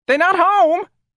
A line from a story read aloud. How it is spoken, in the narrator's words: a woman screamed from behind a shutter next door